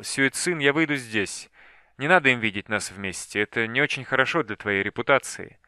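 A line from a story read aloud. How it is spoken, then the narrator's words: Glum. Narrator (Russian): Дзянь-Тянь уныло сказал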